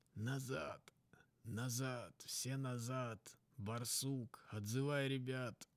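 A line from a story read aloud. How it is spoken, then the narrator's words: Wheezed. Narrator (Russian): Просипел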